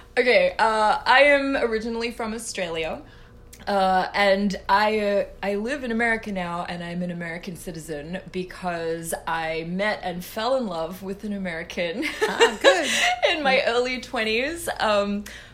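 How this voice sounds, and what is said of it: Australian accent. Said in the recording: “the first thing that people will notice is your accent”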